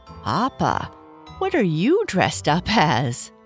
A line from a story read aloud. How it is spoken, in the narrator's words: Bernice said with a laugh